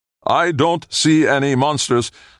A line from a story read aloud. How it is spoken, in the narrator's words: Ling shouted over the pounding of the rain